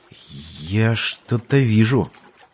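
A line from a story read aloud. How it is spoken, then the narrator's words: Uncertain. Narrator (Russian): Бартоло неуверенно произнес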